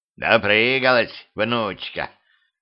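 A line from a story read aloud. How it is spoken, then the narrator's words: Creaky old voice. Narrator (Russian): проскрипел голос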